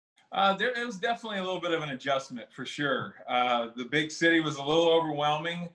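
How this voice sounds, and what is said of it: Southern Bayou accent. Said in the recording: “I can hear that accent in your voice, that Bayou accent in your voice”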